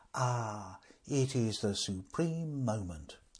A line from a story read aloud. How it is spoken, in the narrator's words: he said softly